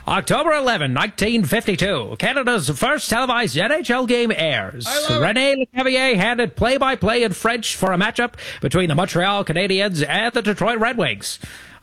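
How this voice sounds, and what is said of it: Old-timey radio announcer voice. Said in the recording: “doing your old-timey radio voice for hockey ... do the next bit in the old-timey radio voice”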